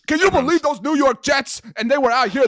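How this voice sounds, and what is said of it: Attempted Philadelphia accent, sounds New York. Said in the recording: “I can't do a Philly accent. ... it's more subtle ... someone just doing a like think Philadelphia accent, and it's just like a New York accent.”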